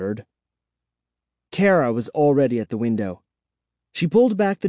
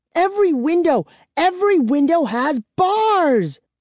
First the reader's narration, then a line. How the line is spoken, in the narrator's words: she wailed